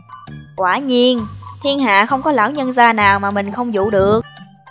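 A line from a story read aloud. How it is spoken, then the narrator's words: Sighing. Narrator (Vietnamese): Triển Chiêu thở dài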